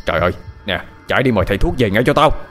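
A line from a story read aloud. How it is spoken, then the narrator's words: Shouting. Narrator (Vietnamese): Ông Lạnh quát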